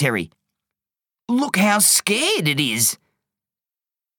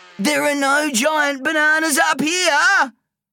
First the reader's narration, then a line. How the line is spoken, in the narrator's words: shouted Terry